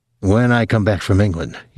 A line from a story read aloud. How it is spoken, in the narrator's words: he said